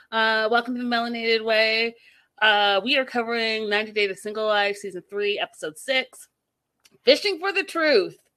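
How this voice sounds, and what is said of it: Raspy, worn-out voice. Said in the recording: “It feels like I'm losing my voice ... bear with me with the raspy rasp”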